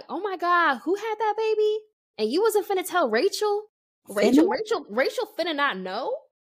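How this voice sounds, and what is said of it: Imitated put-on Black American accent. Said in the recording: “she already had a little bit of a black accent ... Her whole accent shifts when she's talking to him”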